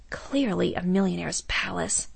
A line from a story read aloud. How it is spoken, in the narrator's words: whispered Kalina